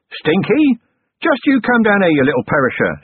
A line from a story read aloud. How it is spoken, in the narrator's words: yelled